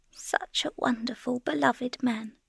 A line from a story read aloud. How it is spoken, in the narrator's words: Frau Godowska was murmuring